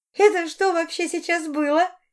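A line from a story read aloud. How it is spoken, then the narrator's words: Giggling question. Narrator (Russian): хихикнув, спросила Арина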